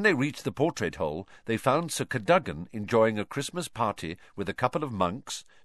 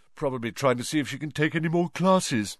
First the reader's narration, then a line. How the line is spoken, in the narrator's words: yawned Ron